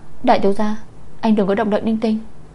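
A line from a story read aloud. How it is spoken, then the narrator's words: Embarrassed hushed cry. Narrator (Vietnamese): Bạch Ánh An xấu hổ hét khẽ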